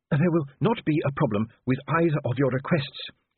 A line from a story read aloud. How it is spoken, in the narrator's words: he panted